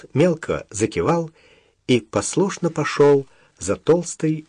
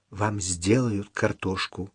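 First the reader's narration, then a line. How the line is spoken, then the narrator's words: Whisper in ear. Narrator (Russian): шепнула Даша, наклонившись к уху старика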